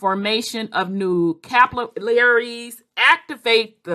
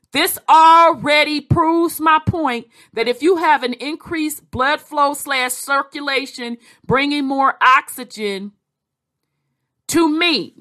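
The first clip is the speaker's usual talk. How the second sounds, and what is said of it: Katt Williams impression. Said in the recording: “in my Cat Williams voice,”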